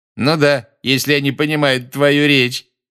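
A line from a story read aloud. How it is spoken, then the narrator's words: Loud remark. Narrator (Russian): громко заметил Малфой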